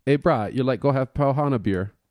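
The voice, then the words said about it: Poor put-on Hawaiian Pidgin accent. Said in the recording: “my horrible pigeon accent”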